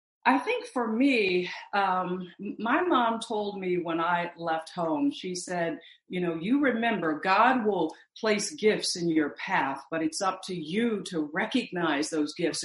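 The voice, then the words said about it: Missouri accent. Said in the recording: “You got your Missouri accent.”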